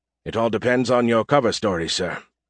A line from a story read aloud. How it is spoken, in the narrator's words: he said flatly